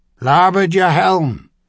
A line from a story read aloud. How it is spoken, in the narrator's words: the captain shouted